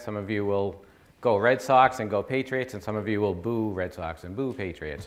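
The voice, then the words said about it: Boston accent. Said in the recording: “I'm from the Boston area. Some of you will recognize my accent.”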